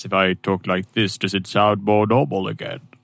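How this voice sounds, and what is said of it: Deliberately deeper voice. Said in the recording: “talk in a deeper voice”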